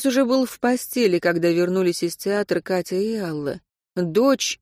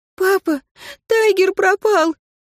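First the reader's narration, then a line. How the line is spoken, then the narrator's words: Burst into sobs. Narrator (Russian): И разразилась рыданиями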